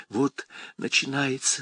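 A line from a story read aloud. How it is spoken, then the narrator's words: Whisper. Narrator (Russian): шепнула Шарон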